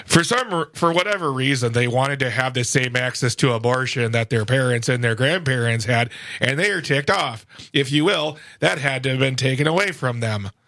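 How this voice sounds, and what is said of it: Drowsy Tim Michaels impression, Lindell-like. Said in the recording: “That was quite the impression. ... My Tim Michaels sounds like a Mike Lindell on like a sleeping pill.”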